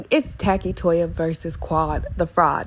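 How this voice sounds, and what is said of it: Impression of Mariah Huq. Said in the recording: “in my Mariah Hug voice”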